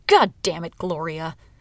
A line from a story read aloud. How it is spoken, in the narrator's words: She snapped